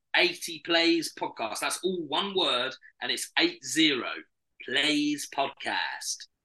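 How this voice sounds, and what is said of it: Slightly American-sounding accent. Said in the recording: “Bit American at the end there.”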